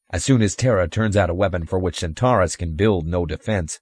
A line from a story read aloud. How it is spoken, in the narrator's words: Reinhardt stated coldly